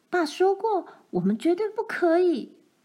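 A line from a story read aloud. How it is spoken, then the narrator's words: Shouting. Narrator (Chinese): 罗兰，玛丽叫道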